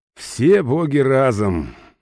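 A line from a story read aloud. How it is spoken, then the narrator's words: Resigned sigh. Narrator (Russian): вздохнул я, поняв, что разговор затянется надолго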